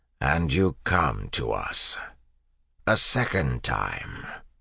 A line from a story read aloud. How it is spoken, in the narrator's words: said an inquisitor in his grinding voice